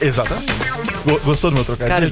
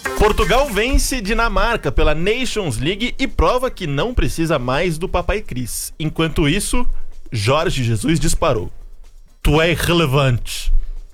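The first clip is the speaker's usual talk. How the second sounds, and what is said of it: Put-on European Portuguese accent. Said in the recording (Portuguese): “Gostou do sotaque português?”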